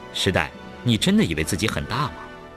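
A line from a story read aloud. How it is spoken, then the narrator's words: Plain. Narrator (Chinese): 说这句话的时候，苏更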